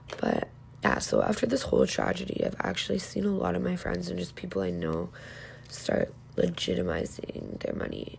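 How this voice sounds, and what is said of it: Hoarse, fading voice. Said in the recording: “sorry, I'm like losing my voice now”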